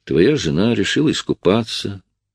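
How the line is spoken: Deep sigh, then speaking. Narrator (Russian): Я глубоко вздохнул и сказал

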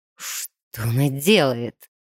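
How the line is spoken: Quiet exasperated breath through teeth. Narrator (Russian): сквозь зубы тихо выдохнул он, когда понял, что глупая девчонка вместо энергии кладбища решила использовать свою собственную кровь

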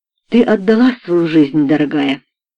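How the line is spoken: Soft, gentle. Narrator (Russian): мягко сказала мисс Вулстрад

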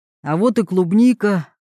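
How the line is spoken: Exclaimed. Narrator (Russian): воскликнул Роберт

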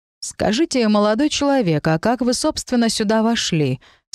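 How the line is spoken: Surprisingly calm. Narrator (Russian): спросил его эльфейшество, удивительно спокойным голосом, учитывая обстоятельства

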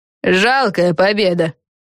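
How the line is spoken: Scornful snort. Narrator (Russian): фыркнула Фелисити Бет

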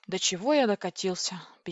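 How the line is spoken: Sad. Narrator (Russian): печально сказал Владлин

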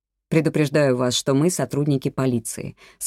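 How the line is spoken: Plain. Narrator (Russian): сказал Ардунья

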